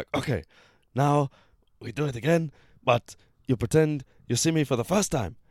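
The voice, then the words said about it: Put-on thick Japanese accent. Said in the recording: “Is that your Japanese accent? ... very thick Japanese accent”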